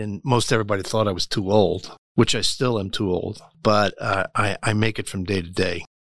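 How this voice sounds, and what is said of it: South Jersey accent. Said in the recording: “that's not a Kansas accent... I'm originally from South Jersey... Jersey guys never lose their accent”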